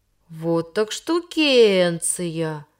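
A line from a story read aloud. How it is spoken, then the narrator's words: Drawn-out amazed drawl. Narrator (Russian): протянул он, делая большие глаза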